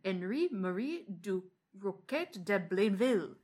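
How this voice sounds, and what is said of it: Horrible put-on accent. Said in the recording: “That was a horrible accent of that”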